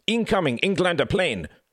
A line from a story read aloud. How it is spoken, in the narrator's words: cried the wounded German, admiration in his eyes